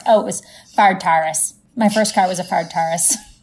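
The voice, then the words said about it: Strong St. Louis accent. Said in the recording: “my accent came out so hard? ... That's more like St. Louis than Midwestern”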